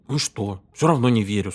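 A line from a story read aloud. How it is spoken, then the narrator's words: Plain. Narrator (Russian): сказал Питер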